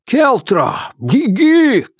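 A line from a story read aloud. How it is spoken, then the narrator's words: Shout. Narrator (Russian): крикнул Острый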